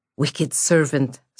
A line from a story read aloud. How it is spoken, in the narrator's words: snarled the voice